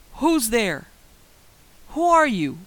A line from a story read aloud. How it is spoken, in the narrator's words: I was angry, so I yelled